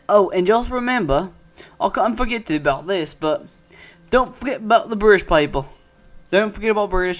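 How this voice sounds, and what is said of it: Bad put-on British accent. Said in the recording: “I know it's a bad British accent ... It's a bad, a very bad British accent ... it's a very bad one”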